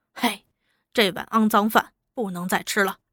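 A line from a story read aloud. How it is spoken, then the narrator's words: Sighing. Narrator (Chinese): 金河叹了口气道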